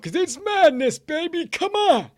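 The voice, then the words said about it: Imitates another person's voice. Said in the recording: “my best Dickie V impression”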